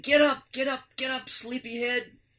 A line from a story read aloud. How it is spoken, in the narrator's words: Vivian yelling